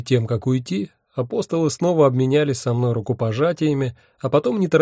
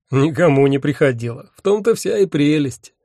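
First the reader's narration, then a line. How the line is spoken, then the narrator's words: Laughing. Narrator (Russian): рассмеялся он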